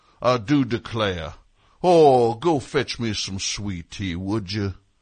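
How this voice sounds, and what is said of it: Put-on southern accent. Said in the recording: “he has a southern accent”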